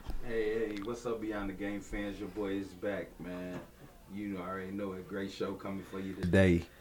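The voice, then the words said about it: Attempted sexy voice, not low enough. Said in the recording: “I try to use my Q Walker sexy voice right there. ... you ain't got it. First of all, you got to lower down.”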